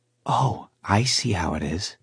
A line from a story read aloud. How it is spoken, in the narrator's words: Jem's wife whispered, laughing softly